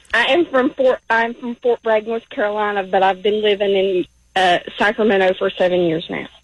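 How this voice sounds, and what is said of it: Southern American twang accent. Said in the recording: “I love that twang. I love that twang. ... I love that accent.”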